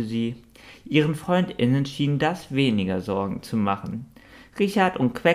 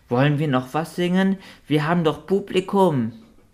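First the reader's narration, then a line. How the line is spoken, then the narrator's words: Whimpering squeak. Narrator (German): Kläffend fiebte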